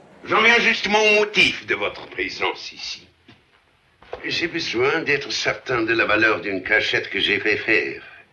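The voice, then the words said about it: French with a German accent. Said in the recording (French): “Otto Hasse dans le rôle du Kaiser Guillaume II ... Vous allez reconnaître tout de suite l'empereur à son accent.”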